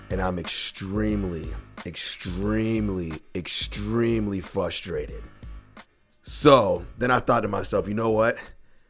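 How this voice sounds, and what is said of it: Hoarse, partly lost voice. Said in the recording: “my voice sounds a little different. It's probably because I've lost my voice.”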